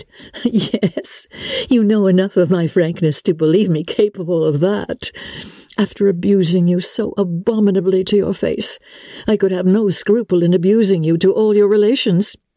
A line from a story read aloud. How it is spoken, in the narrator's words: Elizabeth coloured and laughed as she replied